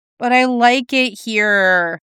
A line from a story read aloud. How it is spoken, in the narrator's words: Clint whined, back to playful again